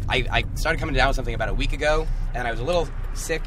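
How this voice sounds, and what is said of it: Slightly hoarse voice. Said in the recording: “you sound like you're getting a little hoarse.”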